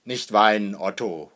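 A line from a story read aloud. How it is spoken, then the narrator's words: Father calling out. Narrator (German): ruft Vater Hackendahl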